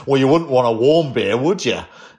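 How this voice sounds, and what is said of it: Put-on Australian accent. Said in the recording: “in that Australian great accent that I can do ... that was uncanny”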